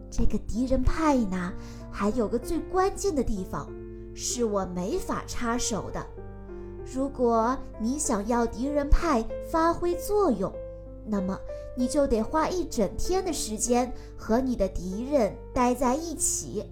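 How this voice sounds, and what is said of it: Soft, quiet whispered voice. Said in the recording (Chinese): “爸爸小声地告诉我说”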